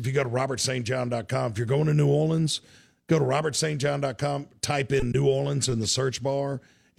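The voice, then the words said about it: Strained, worn-out voice. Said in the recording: “my voice is a little shot”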